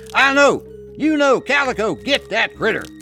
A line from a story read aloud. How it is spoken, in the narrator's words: He called out to his dogs